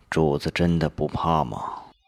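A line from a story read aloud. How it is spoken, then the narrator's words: Flat, after long pause. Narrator (Chinese): 吴业一震，许久才淡淡道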